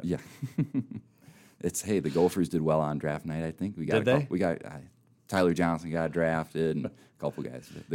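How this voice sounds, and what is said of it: Minnesota accent. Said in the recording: “I'm from Minnesota, and you can probably tell by my voice a little bit as well.”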